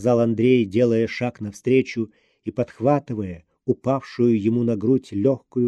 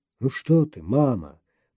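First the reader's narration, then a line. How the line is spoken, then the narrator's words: Murmured. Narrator (Russian): бормотал Обнорский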